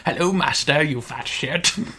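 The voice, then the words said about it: Gollum-like creature voice. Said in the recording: “Tiger Gollum going on there”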